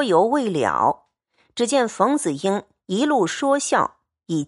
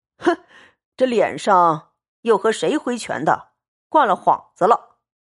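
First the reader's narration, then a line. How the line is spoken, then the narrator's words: Laughing. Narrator (Chinese): 薛蟠笑道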